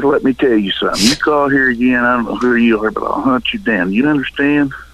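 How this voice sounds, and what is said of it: Midwestern Illinois accent. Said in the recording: “Sounds like an Illinois accent. ... Yeah, it's very Midwestern.”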